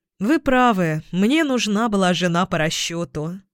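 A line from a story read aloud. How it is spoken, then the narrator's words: Sigh. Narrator (Russian): вздохнул я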